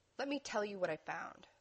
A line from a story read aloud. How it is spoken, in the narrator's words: Dean repeated in an even tone